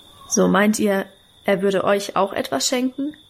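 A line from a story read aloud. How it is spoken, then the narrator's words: Plain. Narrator (German): fragte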